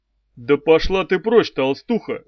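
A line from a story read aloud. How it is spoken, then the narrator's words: Barked angrily. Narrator (Russian): рявкнул он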